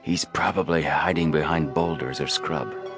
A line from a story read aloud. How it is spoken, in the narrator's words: Frank whispered